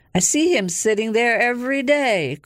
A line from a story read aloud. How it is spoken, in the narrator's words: cried Arthur